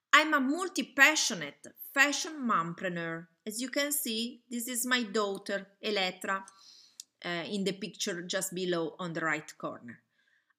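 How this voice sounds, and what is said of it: Italian accent. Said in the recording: “I'm Italian. You probably can hear from my accent.”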